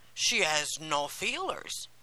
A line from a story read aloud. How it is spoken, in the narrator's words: said another